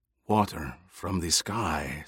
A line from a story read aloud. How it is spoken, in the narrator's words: Stilgar whispered